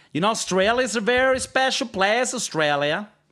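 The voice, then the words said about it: Poor attempt at Australian accent. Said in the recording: “They're from Australia. ... That's really not at all the accent.”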